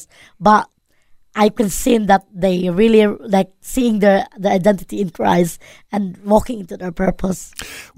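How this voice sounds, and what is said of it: Filipino accent. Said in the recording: “we've been listening to the Filipino accent”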